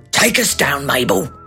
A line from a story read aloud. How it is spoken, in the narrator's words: Felonius Pelonius grumbled